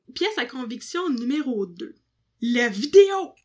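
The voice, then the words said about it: Shouting. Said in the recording (French): “j'ai crié pour rien”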